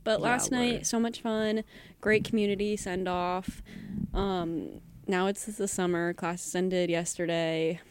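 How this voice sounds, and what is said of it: Tired, drained voice. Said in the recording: “I'm so tired and drained. I don't know if you can hear it in my voice”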